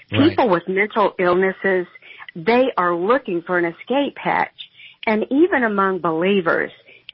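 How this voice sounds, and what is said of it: Southern US accent. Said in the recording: “you can tell by my accent I'm from the South”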